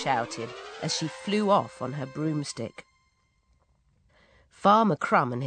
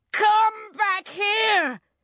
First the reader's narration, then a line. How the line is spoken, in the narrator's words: he yelled